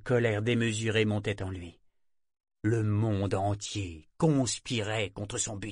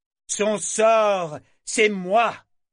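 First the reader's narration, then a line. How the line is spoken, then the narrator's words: Roaring. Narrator (French): rugit Kenick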